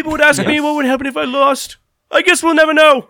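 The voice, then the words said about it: Imitates another person's voice. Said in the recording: “my Conor McGregor impression.”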